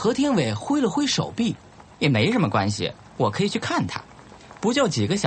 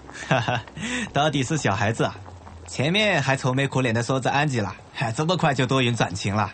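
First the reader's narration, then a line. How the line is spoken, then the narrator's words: Laughing. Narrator (Chinese): 有一个何洛的朋友啊，笑着说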